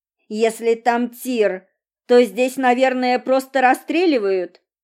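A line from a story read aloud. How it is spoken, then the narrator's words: Plain. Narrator (Russian): спросила я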